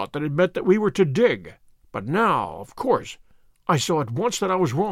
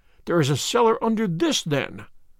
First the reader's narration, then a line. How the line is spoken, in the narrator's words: I cried